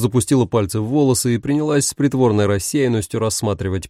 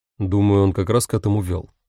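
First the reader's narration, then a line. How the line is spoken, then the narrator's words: Dry remark. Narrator (Russian): сухо обронил Дамиан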